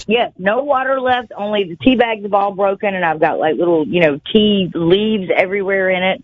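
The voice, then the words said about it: Speaks with a lovely regional accent. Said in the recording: “your lovely accent”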